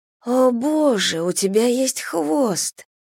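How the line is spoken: Shuddering moan. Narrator (Russian): простонала я, содрогаясь

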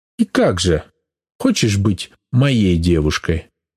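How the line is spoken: Solemn proposal. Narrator (Russian): торжественно предлагает он, словно попросил меня быть его королевой

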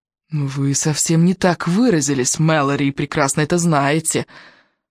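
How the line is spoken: Angry hiss. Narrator (Russian): зло прошипел Уоррен

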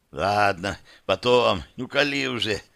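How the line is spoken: Hoarse. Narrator (Russian): хрипло сказал Славик

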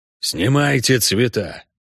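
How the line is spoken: Through gritted teeth. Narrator (Russian): процедил Хорн

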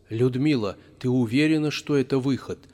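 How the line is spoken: Plain. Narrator (Russian): спросил Тинчурин

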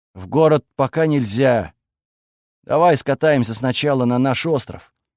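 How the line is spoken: Forced out reluctantly. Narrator (Russian): выдавил, наконец, Крис

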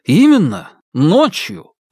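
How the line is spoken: Exclaiming. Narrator (Russian): воскликнул Павел

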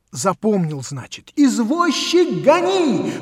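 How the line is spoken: Shouted. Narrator (Russian): крикнул

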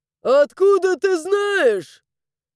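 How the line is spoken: Shout from crowd. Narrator (Russian): заорал кто-то из толпы

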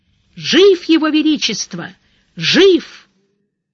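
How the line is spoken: Frantic, desperate yell. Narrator (Russian): кто-то заорал вовсе уж истошно

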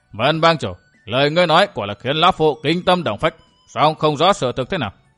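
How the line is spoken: Laughing loudly. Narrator (Vietnamese): cười lớn

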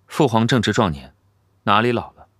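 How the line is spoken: Calm, flat. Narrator (Chinese): 太子淡淡说道

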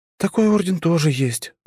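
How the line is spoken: Sigh. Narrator (Russian): вздохнула Жанна

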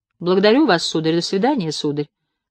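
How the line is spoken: Dry. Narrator (Russian): сухо произнес библиотекарь

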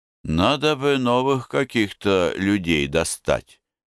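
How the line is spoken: Sad summary. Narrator (Russian): Нестеренко грустно итожит

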